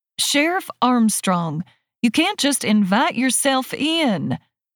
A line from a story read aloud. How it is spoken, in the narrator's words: I yell